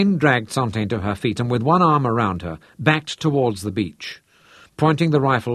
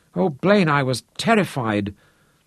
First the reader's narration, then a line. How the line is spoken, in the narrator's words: Her face was pressed to his chest so that her voice was blurred